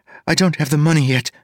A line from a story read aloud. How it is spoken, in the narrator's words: she said quickly